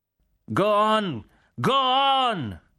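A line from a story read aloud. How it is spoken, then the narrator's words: Shouted. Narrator (Italian): gridava il generale Cork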